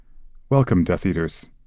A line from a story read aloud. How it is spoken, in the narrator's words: said Voldemort quietly